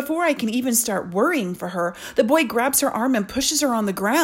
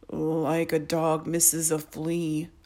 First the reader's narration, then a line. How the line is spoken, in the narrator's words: Albert mumbles